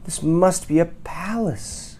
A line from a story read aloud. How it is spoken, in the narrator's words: Corduroy gasped